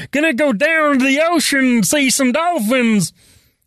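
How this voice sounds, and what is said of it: Put-on southern accent, not authentic. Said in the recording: “I was doing a much better southern accent before... Why can't I do an authentic one?”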